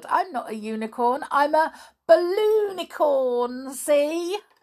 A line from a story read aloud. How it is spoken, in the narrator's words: giggled